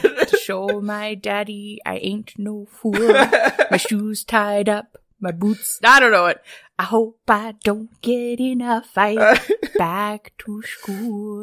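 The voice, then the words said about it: Singing, imitates another person's voice. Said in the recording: “doing a pretty good impression ... I can definitely hear it in the way you were saying it”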